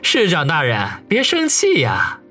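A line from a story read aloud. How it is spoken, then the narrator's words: Chuckling, placating. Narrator (Chinese): 王宇呵呵一笑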